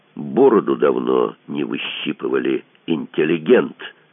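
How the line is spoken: Meaningful hiss. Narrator (Russian): тот, что с ножом, многозначительно прошипел

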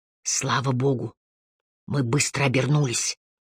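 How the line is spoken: Whisper. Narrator (Russian): шепнул Харри

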